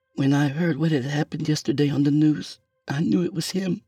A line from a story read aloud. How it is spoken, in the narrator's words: she whimpered